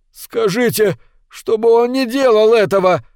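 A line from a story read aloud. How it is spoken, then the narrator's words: Pleading. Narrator (Russian): взмолился Костенбаум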